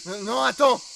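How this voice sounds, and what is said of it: Shouting. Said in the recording (French): “Pourquoi tu cries? ... t'as pas à me crier dessus.”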